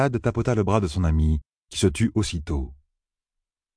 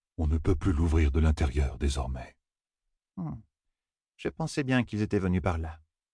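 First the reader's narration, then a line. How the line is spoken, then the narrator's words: Murmured. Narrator (French): murmura Vérine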